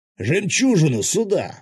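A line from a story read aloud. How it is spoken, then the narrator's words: Sudden yell. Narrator (Russian): снова неожиданно заорал Феникс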